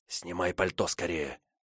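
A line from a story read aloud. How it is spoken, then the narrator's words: Whisper. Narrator (Russian): шепнул я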